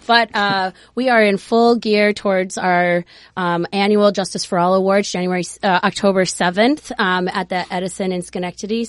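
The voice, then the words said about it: Hoarse, strained voice. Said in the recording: “I've lost my voice for the last like 2 weeks, so I sound a little funny.”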